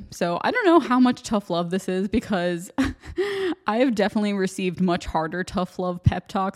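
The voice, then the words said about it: American accent. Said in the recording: “everyone already noticed my American accent”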